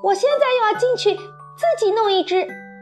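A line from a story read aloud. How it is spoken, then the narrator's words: Shouting. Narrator (Chinese): 维卢克大叫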